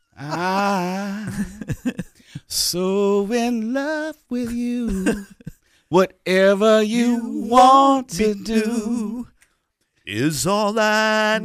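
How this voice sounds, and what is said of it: Singing in falsetto. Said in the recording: “Into the falsetto. You went into falsetto.”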